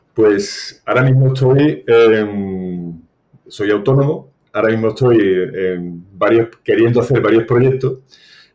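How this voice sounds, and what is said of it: Sevillian Spanish accent. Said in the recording (Spanish): “tu acento, yo diría que tú no eres gallego ... soy de Sevilla”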